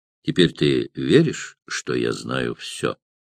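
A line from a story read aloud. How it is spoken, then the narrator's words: Asking in undertone. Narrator (Russian): спросил его вполголоса Кателина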